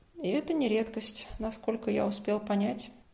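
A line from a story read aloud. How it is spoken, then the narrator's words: Sighing. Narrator (Russian): вздохнул Родион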